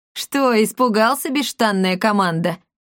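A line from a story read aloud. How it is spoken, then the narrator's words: Laughing cat. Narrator (Russian): расхохотался кот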